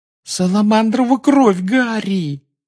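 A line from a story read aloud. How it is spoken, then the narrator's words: Groaned. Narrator (Russian): застонала Гермиона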